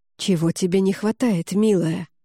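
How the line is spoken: Whisper. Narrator (Russian): прошептал он

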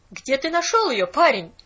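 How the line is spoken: Sharp repetition. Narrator (Russian): резко повторила она

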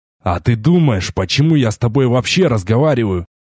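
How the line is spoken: Snorting. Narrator (Russian): хмыкнул

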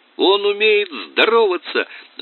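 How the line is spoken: Yelled. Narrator (Russian): завопил Тоби

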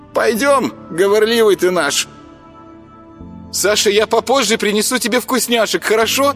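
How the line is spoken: Young woman calling after. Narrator (Russian): крикнула им вслед девушка

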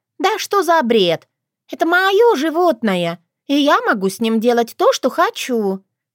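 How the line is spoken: Shrill woman's squeal. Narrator (Russian): взвизгнула посетительница

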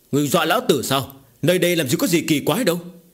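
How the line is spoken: Shouted. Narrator (Vietnamese): Tiền Thông quát lên

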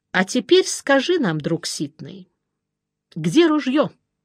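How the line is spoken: Calm. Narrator (Russian): спокойно предложил Жеглов

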